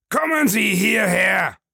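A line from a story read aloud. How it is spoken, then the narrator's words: Calling out. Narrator (German): rief er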